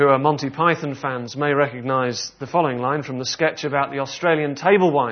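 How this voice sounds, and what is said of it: Usual voice. Nothing is said of it.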